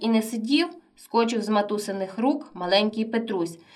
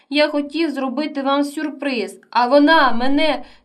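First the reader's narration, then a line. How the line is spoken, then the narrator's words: Sobbing mutter. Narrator (Ukrainian): схлипуючи, бурмотів Максим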